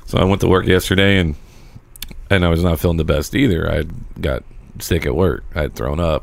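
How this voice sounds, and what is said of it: Sick, under-the-weather voice. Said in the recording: “you can tell my voice is a little under the weather”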